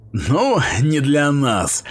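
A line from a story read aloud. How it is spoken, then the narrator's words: Snort. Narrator (Russian): хмыкнул Грёте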